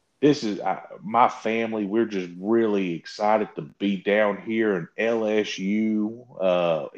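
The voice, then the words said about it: Put-on Southern accent. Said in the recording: “He started talking like Garth Brooks almost... where the fuck did this accent come from?”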